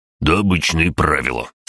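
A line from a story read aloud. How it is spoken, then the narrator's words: Dismissive snort. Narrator (Russian): с пренебрежением хмыкнул красный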